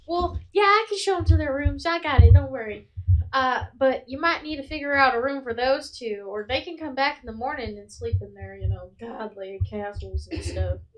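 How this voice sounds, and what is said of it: Put-on Southern accent. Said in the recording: “Hey, it was Southern. Man. It was Southern. ... Can you tell that I haven't done a southern accent in like a week? ... yes, good. Yes, no, keep it up. You're doing well.”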